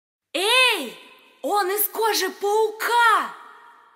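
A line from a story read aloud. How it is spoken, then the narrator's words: Shouting. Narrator (Russian): крикнула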